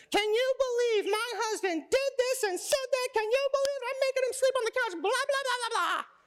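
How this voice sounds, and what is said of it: Mock impression of a complaining wife. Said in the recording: “That's my impersonation of you.”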